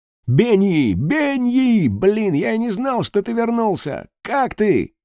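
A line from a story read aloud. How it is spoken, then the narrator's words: Joyful big man's shout. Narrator (Russian): радостно заорал здоровяк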